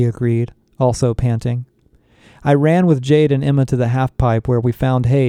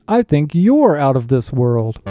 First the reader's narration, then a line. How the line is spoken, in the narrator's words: the doll happily exclaimed